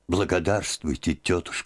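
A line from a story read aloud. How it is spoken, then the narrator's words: Touched, quiet voice. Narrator (Russian): начала она тронутым и тихим голосом по-русски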